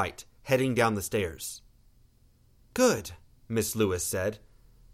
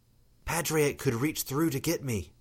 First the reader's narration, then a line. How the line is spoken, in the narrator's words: Rose whispered